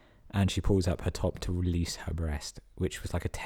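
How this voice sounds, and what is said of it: Usual voice. Nothing is said of it.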